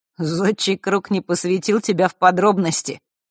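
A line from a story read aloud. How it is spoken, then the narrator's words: Sudden chuckle. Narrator (Russian): вдруг хохотнул дух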